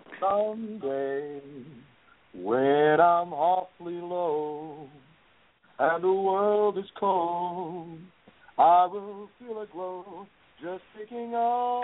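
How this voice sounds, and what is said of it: Imitates another person's singing voice. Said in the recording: “Do you want me to do an impression of Frank Sinatra?”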